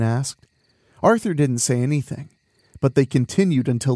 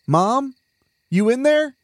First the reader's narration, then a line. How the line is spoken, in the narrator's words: Arthur called out